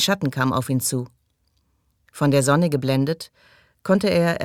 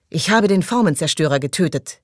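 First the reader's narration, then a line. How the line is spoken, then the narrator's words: Calling out. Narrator (German): rief Toni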